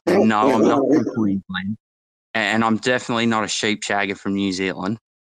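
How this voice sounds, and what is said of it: Posh Australian accent. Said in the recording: “that is posh ... one of the best Australian accents”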